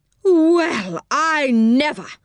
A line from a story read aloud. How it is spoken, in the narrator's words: cried Moonface, his big round face getting redder and redder